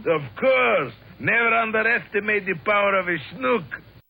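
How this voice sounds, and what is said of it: Cartoon character accent. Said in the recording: “a great accent”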